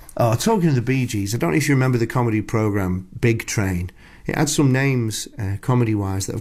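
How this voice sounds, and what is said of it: Usual voice. Nothing is said of it.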